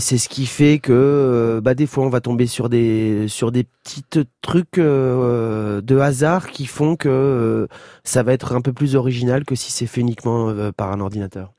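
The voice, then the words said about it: Marseille French accent. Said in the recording (French): “le petit accent qui revient, l'accent marseillais qui revient.”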